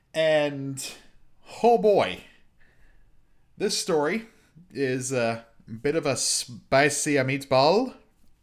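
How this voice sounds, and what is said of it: Bad put-on Italian accent. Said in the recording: “that horrendous Italian accent”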